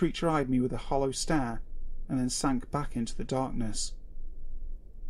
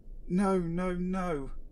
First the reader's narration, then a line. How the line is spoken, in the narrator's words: muttered in a shrill, frantic voice